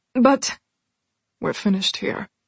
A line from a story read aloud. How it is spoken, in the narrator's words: Bastian said, his tone cold, forbidding